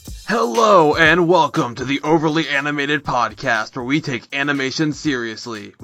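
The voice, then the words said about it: Wrestling commentator voice. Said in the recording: “what is this voice you're putting on? ... I'm doing this voice ... I'll never get to be a real wrestling commentator”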